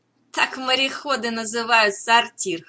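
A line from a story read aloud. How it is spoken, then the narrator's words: Laughing chuckle. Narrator (Russian): хохотнул Морель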